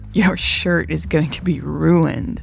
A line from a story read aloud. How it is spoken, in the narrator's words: Louise chuckled